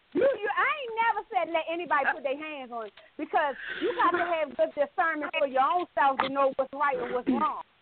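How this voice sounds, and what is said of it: Strong Southern country accent. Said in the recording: “You are country, boy. ... Y'all hear that accent? ... Country than a motherfucker.”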